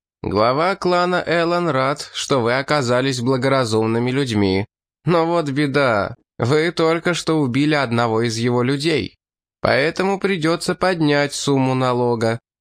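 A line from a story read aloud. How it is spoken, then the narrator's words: Shouted again. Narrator (Russian): снова выкрикнул морсвелец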